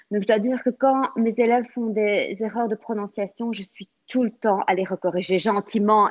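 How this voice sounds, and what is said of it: Very strong accent in French. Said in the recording (French): “mon accent qui est très, très, très, très fort ... Très prononcé”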